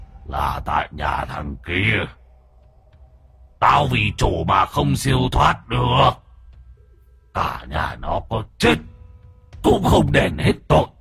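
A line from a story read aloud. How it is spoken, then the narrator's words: Deep booming voice. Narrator (Vietnamese): giọng nói ồm ồm vang lên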